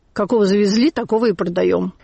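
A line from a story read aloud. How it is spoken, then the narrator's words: Angry reply. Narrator (Russian): Моня сердито отвечал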